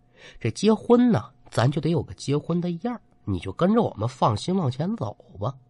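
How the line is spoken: Soft voice. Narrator (Chinese): 这女人却轻声的说

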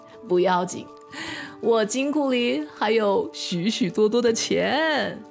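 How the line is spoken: Relaxed, laughing. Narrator (Chinese): 卡鲁洛总是显得很轻松，还笑着说

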